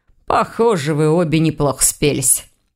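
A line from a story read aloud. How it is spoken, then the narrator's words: Snorting. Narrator (Russian): хмыкнул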